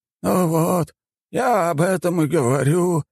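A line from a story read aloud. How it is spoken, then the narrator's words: Sighing. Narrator (Russian): вздохнул алхимик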